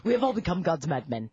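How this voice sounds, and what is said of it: Anthony Hopkins impression. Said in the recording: “my Anthony Hopkins impression.”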